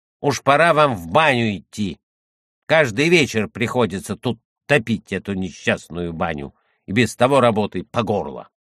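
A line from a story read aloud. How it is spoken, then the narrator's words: Angry grumbling. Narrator (Russian): Работница Христина сердито сказала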